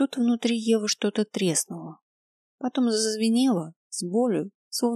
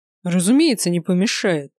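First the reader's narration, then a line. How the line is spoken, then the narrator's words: Angry. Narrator (Russian): зло сказал Грайнер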